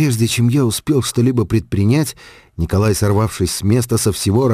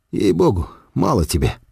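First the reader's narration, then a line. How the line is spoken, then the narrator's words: Frank mutter. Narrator (Russian): пробормотал я откровенно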